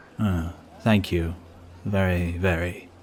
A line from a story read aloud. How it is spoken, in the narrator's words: muttered Mr